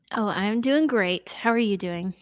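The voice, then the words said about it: Polished radio announcer voice. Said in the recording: “that was a little bit of radio voice you just gave me right now ... my radio voice”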